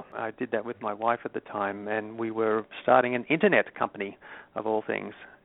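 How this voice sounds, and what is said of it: Australian accent. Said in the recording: “As you might detect from my accent, I'm not originally from the U.S. ... my hometown of Sydney, Australia”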